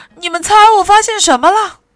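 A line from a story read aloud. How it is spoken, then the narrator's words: Loud shout. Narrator (Chinese): 他就大叫起来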